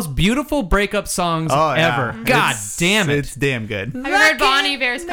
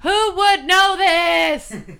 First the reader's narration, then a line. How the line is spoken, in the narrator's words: He screams it at her